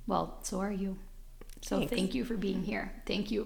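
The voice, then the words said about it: Choked-up, emotional voice. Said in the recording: “Sorry, I'm getting choked up.”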